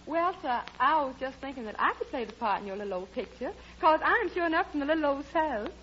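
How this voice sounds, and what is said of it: Put-on Southern accent. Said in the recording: “a girl with a southern accent ... I could have sworn you came from Boston”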